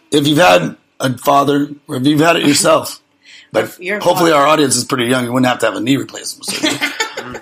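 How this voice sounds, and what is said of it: Strained, fading voice. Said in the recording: “I'm losing my voice. I've been talking too much.”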